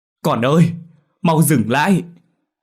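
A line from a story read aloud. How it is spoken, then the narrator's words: Woman shouting. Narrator (Vietnamese): giọng một người đàn bà la lên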